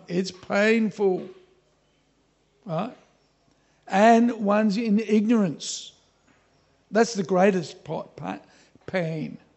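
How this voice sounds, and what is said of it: Australian accent. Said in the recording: “When I say pain, sometimes you hear pine... That's my Australian accent.”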